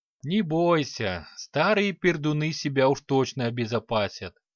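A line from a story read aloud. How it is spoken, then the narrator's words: Short laugh. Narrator (Russian): хохотнул Альвисар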